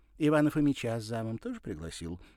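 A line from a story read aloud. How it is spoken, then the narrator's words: Snide, mocking question. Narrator (Russian): спросила она ехидно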